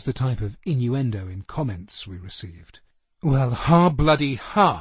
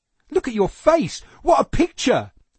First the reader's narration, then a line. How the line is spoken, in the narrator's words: cried Annette with glee